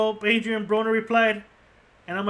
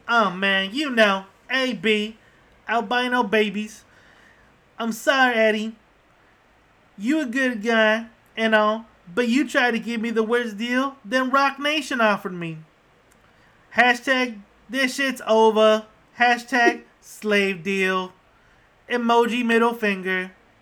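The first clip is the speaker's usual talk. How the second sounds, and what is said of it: Imitates another person's voice. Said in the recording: “I'm going to try to do my best Adrian Broner impression.”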